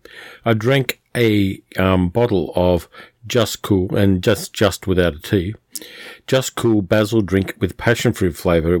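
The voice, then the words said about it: Slightly clogged, funny-sounding voice. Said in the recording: “it clogged up my throat a little bit. So if my voice sounds funny ... it does kind of leave a layer in your throat.”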